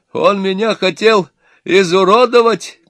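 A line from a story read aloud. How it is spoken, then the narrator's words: Father shouting. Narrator (Russian): кричал отец невесты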